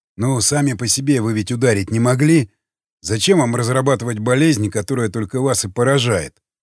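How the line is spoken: Plain. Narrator (Russian): спросил Крест

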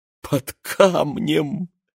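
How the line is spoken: Laughing. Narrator (Russian): засмеялась

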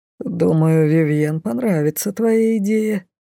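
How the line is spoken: Mysterious lordly snort. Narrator (Russian): загадочно хмыкнул лорд Вандербрас

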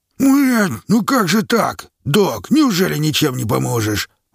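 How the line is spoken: Exclaimed. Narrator (Russian): воскликнул он

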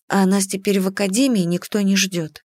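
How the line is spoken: Grumble. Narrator (Russian): пробурчала я

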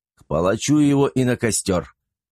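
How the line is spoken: Loud hysterical scream. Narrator (Russian): Трактирщик в истерике громко закричал

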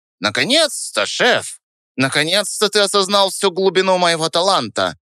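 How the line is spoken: Self-important squeak. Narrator (Russian): Пискнул он с важностью

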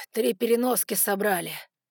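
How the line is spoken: Winded exhale. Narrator (Russian): выдохнул Саймон, который принес откуда-то изнутри корабля сразу четыре пухлых чемодана

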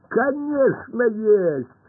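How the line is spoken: Laughing. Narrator (Russian): рассмеялся Пашка

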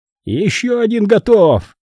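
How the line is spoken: Shouted. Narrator (Russian): прокричал он

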